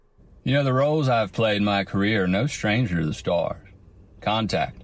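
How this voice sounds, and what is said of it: Matthew McConaughey impression. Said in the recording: “Matthew McConaughey impersonation”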